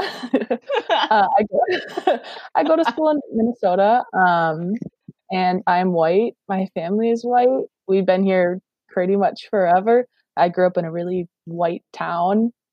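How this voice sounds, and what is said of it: Regional Wisconsin American accent. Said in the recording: “I'm from the United States in Wisconsin. I do have an accent, but that's just because it's regional.”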